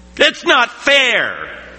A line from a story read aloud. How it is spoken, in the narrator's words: he just stared me down and shouted